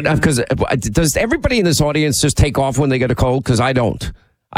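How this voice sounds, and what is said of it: Congested, nasal voice. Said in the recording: “We hear it through your nose... You sound like the guest of honor at a mucus convention”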